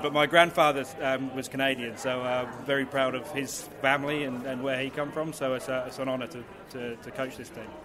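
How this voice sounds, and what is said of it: Mixed English-Australian accent. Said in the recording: “it's a cross between an English accent and an Australian accent”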